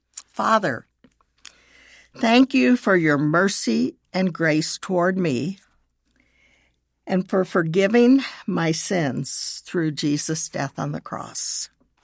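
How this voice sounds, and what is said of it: Slow, deliberate reading of a prayer. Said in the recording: “I will read it slowly.”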